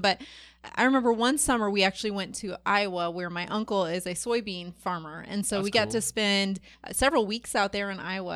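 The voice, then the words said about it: Slight Midwestern American accent. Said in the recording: “You have a little bit of a Midwestern tinge to your accent ... Some people guess that I'm from Minnesota ... I do have a Midwestern accent”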